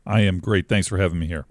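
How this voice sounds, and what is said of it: Smooth radio-style voice. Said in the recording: “smooth radio voice.”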